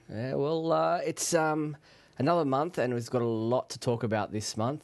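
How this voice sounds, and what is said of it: Congested voice from a cold. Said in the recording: “Please excuse my voice. I've got a bit of a cold going on at the moment, so trying to stay as clear-throated as I can”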